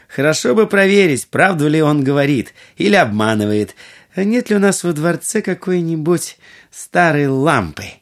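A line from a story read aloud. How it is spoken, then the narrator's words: Laughing. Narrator (Russian): Будур рассмеялась и сказала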